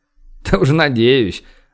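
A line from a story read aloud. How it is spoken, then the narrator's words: Laughing. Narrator (Russian): рассмеялся Борис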